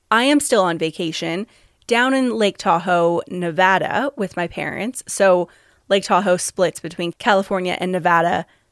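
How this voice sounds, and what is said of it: Slightly raw voice. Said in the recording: “my voice is a little raw”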